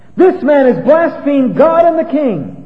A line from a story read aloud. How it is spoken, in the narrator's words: these two fellows stand up and begin to yell